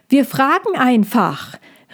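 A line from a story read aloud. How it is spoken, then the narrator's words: Calling backward. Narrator (German): rief auch nach hinten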